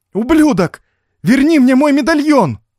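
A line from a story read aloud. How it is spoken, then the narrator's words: Desperate shout. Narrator (Russian): В отчаянии я закричал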